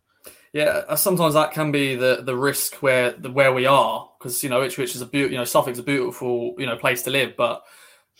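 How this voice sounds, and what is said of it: Suffolk English accent. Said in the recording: “with your fantastic Suffolk accent”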